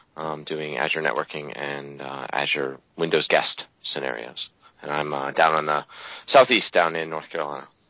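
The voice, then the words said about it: Southern US accent. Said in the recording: “your accent gives it away”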